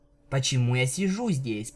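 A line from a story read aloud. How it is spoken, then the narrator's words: Grumbled. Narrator (Russian): пробурчала она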